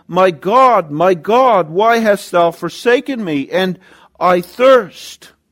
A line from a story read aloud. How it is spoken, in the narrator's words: He cried out